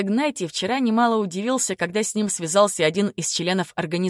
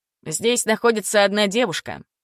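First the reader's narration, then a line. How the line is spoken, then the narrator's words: Thoughtful, unhurried. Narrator (Russian): задумчиво начал Давид, не спеша раскрывать все карты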